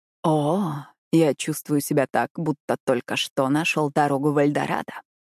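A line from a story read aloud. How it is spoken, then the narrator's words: Sweet whisper. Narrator (Russian): сладко прошептал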